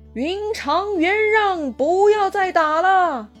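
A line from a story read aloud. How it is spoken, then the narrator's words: Shouting. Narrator (Chinese): 大喊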